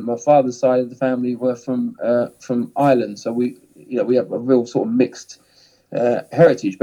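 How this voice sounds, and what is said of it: Southern English accent. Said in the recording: “you can tell by my accent that, you know, I'm kind of from the south of England”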